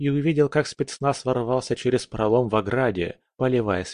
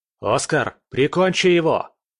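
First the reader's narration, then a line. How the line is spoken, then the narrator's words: Shout. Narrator (Russian): крикнул я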